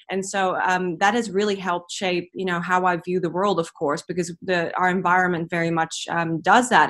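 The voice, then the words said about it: Noticeable foreign accent. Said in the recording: “what is that accent?”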